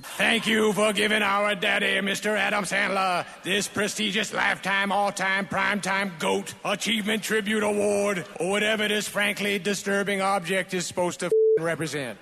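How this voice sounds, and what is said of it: Goofy put-on southern accent. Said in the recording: “that goofy southern accent you always do all your dumb speeches in”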